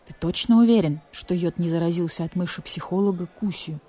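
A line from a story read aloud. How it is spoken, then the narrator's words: Whisper in the ear. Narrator (Russian): прошептал на ухо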